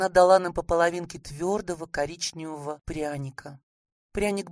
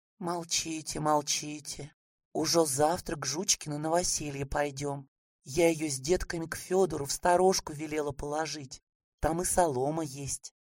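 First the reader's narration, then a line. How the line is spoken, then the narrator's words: Grandmother, quiet. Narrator (Russian): бабушка сказала тихонько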